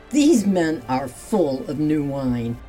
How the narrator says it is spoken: Others grew agitated and started mocking the disciples, saying

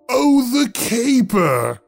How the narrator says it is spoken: he roared

